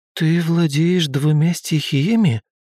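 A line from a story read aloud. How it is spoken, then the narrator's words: Uncertain question. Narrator (Russian): неуверенно спросила Огнева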